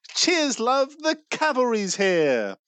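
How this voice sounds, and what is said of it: British female character voice. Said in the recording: “Tracer impressions ... she is British ... that impression”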